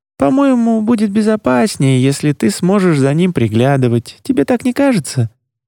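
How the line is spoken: Feigned carefree tone. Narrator (Russian): предложила она якобы беспечным тоном

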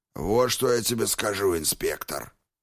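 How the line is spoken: Hoarse man. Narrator (Russian): хрипло проговорил чернокожий

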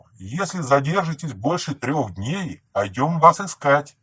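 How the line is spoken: Distant shout. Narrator (Russian): Уже отойдя метров на 50, он крикнул

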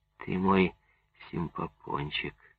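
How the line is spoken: Sincere and tender. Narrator (Russian): он искренне и нежно сказал ей

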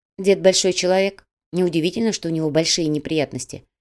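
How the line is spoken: Calm female voice. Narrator (Russian): спокойно произнесла девушка

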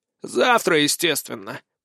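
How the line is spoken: Contemptuous snort. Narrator (Russian): презрительно фыркнул тот

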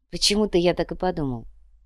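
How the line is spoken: Mumble. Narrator (Russian): пробормотал Тео

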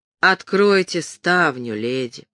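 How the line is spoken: Almost mocking. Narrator (Russian): проговорил голос почти насмешливо

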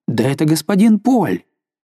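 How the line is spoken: Sudden exclamation. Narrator (Russian): вдруг воскликнул

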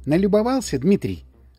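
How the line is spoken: Affectionate question. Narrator (Russian): ласково спросила Мэри

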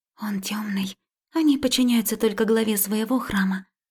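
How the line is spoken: Whisper. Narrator (Russian): шепнула Марика

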